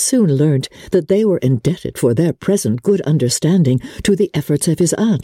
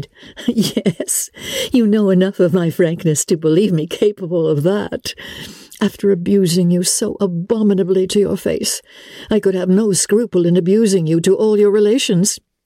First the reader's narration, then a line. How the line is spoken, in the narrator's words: Elizabeth laughed as she replied